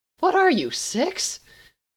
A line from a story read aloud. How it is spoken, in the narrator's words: Gabriel laughed